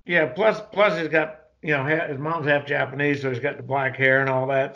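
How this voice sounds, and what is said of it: Southern US accent. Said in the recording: “obviously you hear the southern accent”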